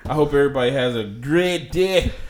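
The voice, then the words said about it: Attempted Scottish accent. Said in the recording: “That's supposed to be my Scottish accent.”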